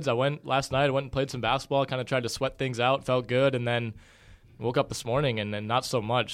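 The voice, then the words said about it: Tired, sick-sounding voice. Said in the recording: “you might be able to hear it in my voice already. I'm like trying to not fall asleep on the microphone here. I've been under the weather”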